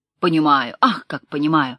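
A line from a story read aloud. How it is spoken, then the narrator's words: Exclamation. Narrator (Russian): воскликнул Ликоспастов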